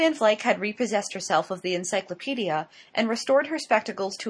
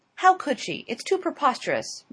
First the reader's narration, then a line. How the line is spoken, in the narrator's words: Miss Glyde exclaimed